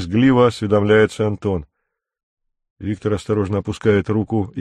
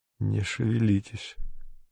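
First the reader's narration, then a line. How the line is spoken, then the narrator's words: Hoarse. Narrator (Russian): хрипло говорит он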